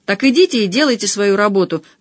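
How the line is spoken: Barked command. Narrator (Russian): гаркнула Инесса

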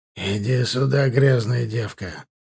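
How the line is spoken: Nasty hiss. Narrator (Russian): зашипел шрамированный мерзко

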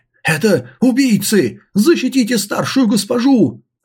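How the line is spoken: Yelled. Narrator (Russian): заорал управляющий Джан

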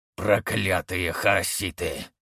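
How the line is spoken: Growled. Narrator (Russian): прорычал один из лидеров ордена

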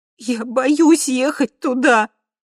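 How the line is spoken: Sobbing. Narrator (Russian): прорыдала я

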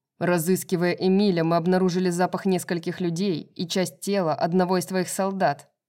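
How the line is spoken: Growled. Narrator (Russian): прорычал Тарион

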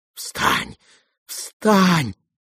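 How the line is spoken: Frightened whisper. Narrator (Russian): говорил он испуганным шепотом

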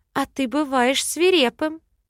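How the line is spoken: Impressed giggle. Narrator (Russian): хихикнула я, впечатлившись тоном короля

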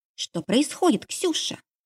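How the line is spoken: Whisper right into ear. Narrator (Russian): прошептала в самое ухо

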